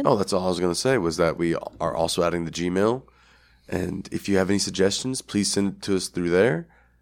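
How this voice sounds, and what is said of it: Hoarse, rough voice from a cold. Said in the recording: “my voice is a little crappy. I was sick over the weekend. I had a cold, and I am recovering. ... my crappy voice”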